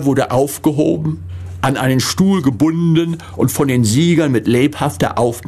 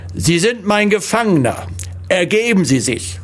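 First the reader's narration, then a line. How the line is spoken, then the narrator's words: Big fat soldier shouting. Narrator (German): ein großer, dicker Soldat in goldstrotzender Uniform rief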